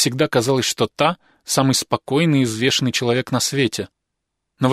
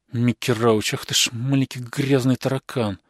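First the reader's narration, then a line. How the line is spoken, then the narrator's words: Muttering woman. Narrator (Russian): бормотала она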